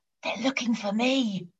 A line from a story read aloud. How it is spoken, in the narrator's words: Still whispering, the little voice said